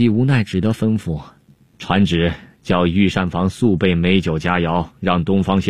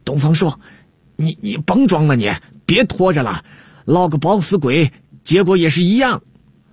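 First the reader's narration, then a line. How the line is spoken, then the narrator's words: Gloating shout. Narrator (Chinese): 郭舍人在旁边幸灾乐祸地叫了起来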